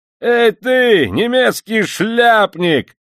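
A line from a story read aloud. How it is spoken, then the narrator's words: Yelling at top of lungs. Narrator (Russian): заорал во все горло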